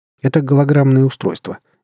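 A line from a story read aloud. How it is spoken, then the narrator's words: Calm, composed lie. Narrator (Russian): не моргнув и глазом, спокойно соврал я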